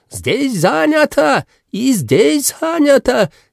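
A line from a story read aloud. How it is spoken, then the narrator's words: Man shouting, heavy accent. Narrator (Russian): Один из пассажиров, мужчина восточной внешности с сильным акцентом, кричал на весь автобус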